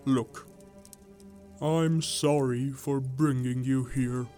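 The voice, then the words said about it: Sad, sorrowful voice. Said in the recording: “in a sad voice”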